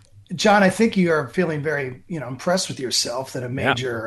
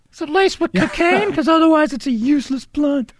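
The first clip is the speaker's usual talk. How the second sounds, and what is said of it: Imitates another person's voice. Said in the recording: “my impression of your daughter”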